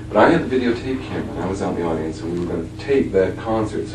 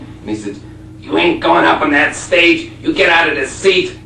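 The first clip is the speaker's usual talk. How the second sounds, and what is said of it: Attempted Buffalo, New York accent. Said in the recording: “I don't know if I can do the accent, Buffalo, New York accent, probably.”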